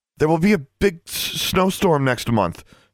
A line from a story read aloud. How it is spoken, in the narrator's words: she stammered